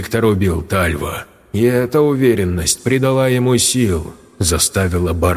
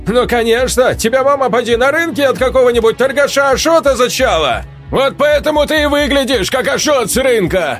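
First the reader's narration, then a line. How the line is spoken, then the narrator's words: Shouted again. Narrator (Russian): Сергей вновь крикнул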